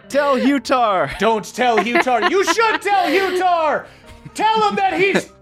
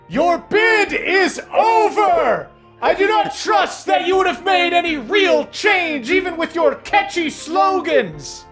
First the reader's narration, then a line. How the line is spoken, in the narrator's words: this dragon shouting